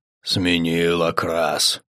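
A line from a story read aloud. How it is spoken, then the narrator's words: Growled. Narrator (Russian): прорычал Угрх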